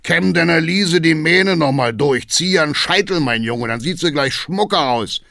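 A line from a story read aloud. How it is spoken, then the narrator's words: Booming call. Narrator (German): ruft Hackendahl dröhnend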